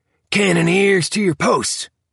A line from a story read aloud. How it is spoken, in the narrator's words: urgently